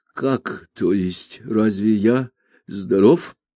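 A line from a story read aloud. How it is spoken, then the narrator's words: Stammering mumble. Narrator (Russian): Ганс Кастроп, заикаясь, пролепетал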